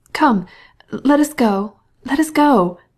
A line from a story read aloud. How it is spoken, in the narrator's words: she cried to Betsy